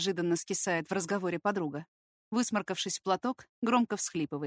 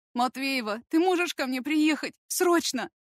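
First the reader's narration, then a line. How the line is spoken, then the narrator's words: Whimpering, sniffling over phone. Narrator (Russian): Дашка снова хныкает в трубку и шмыгает носом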